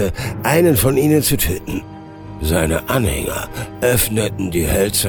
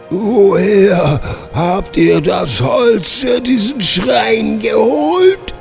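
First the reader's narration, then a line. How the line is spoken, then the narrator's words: Groaned. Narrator (German): stöhnte Vernakus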